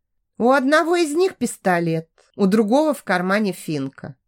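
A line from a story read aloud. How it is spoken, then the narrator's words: Calm clarification. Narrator (Russian): спокойно уточнила Майя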